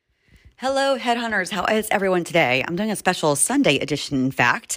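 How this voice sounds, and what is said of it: Rough, tired-sounding voice. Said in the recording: “I feel like my voice sounds a little hungover.”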